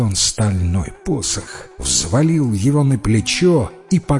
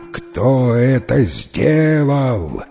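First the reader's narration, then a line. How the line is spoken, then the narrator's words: Terrible roar. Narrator (Russian): заревел он страшным голосом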